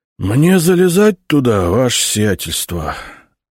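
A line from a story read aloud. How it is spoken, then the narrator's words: Dejected question. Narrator (Russian): упавшим голосом спросил Игнат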